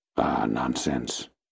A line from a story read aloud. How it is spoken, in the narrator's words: I forced myself to murmur